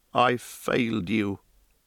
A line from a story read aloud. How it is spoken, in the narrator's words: he said